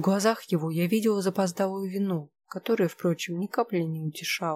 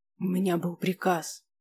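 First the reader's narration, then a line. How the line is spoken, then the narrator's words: Tense, through gritted teeth. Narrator (Russian): процедил он напряженно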